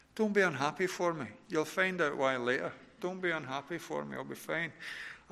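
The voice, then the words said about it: Scottish accent. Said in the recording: “I love being Scottish. I love having a Scottish accent.”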